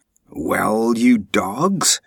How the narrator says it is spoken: he roared

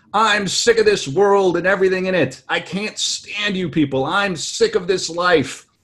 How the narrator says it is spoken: shouted to my guests

